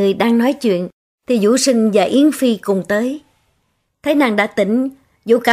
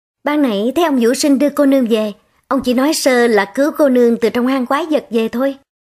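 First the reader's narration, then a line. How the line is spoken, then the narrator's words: Smiling, friendly. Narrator (Vietnamese): Nữ tỳ mỉm cười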